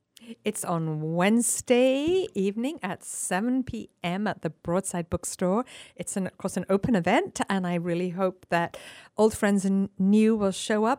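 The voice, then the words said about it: Speaks with a noticeable accent. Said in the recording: “We love your accent.”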